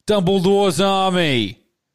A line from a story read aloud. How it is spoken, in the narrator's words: he shouted